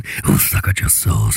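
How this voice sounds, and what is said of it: Deep spooky demon voice. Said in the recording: “spooky voice ... the deep voice of the demon ... it did sound like he was gagging on it then”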